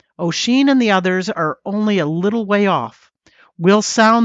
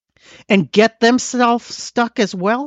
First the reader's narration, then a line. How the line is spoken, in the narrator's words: snarled Conan Mall